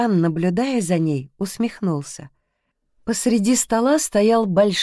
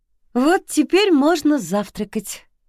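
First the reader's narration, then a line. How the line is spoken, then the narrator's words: Cheerful announcement. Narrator (Russian): весело объявила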